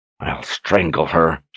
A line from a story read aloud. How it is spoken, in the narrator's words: growled under her breath